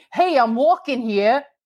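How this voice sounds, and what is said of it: Good put-on New York accent. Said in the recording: “That was a good New York accent.”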